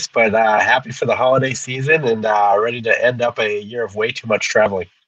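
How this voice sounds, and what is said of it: Sick, congested-sounding voice. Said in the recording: “A little bit under the weather, if you can't tell by my voice ... rest your voice, rest your sinuses”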